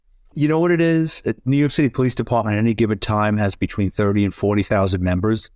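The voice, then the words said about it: Strong New York accent. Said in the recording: “for those of us that can recognize a New York accent, it's fairly strong with you.”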